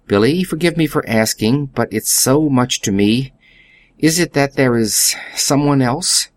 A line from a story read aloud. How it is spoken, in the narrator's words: His voice shook